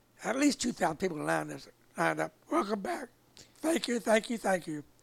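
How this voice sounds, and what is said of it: Choked-up, emotional voice. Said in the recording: “I'm getting choked up over that”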